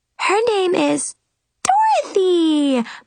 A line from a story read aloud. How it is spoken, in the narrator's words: the three girls squealed in unison